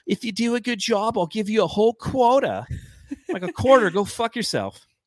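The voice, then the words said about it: Put-on older New York lady accent. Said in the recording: “like an older New York lady ... maybe that was more Boston ... listen to Sopranos for a New York, New Jersey accent. What you're doing is not it.”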